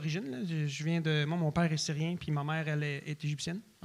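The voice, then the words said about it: Strong Québécois French accent. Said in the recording (French): “tu as l'accent le plus fucking québécois que j'ai entendu de ma vie ... j'ai vraiment un accent québécois prononcé”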